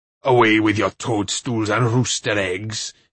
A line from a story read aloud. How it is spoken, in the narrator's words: he roared